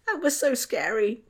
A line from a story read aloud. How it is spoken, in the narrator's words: Tom squeaked